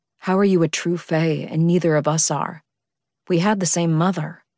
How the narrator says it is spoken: he asked

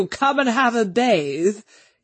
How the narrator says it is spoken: he chuckled

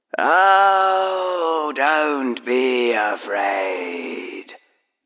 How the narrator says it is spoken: breathed the voice

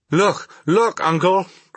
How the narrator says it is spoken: cried I

